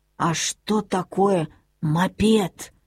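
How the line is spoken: Old woman whispering. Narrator (Russian): прошептала бабушка

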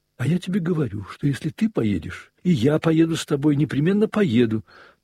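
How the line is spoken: Hurried, angry speech. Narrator (Russian): торопливо и гневно заговорила она

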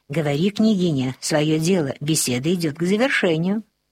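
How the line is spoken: Hurried whisper. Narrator (Russian): Толмач торопливо шепнул

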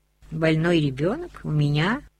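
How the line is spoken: Calm question. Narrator (Russian): спокойно спросила Лависа

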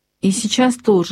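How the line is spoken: Plain. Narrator (Russian): говорит мама

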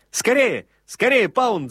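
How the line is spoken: Breathless shouting. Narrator (Russian): запыхавшись, кричал он

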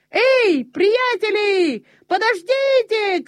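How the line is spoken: Shouting. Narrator (Russian): кричал он

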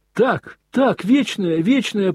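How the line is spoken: Ringing, touched boys' chorus. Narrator (Russian): прокричали все мальчики своими звонкими голосами с умиленными лицами

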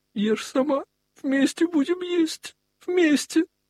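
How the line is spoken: Speaking through sobs. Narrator (Russian): сквозь рыдания говорил

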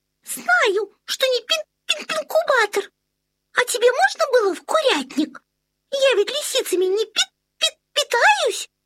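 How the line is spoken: Squeaky voice. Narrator (Russian): запищала Тутта Карлсон

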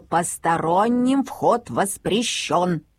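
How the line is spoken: Stern warning. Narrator (Russian): папа строго-настрого предупреждал

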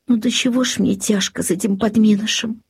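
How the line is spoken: Weary sigh. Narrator (Russian): вздохнула крестьянка, увидев еще одну прореху

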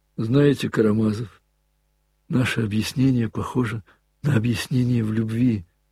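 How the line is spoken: Languid, bashful voice. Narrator (Russian): каким-то расслабленным и стыдливым голосом проговорил Коля

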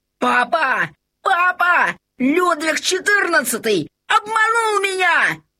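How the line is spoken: Shouted. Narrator (Russian): закричал Лабан

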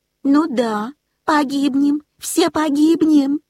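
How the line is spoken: Squeaky panicked cat. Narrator (Russian): запищала кошка

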